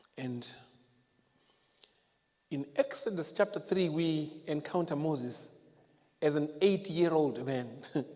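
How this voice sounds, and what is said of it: Speaks with a noticeable accent. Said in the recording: “You guys can get my accent, can you? Can you hear what I'm saying?”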